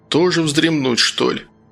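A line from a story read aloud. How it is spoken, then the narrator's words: Sleepy grumble. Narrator (Russian): пробурчал Сергей, чувствуя, как его клонит в сон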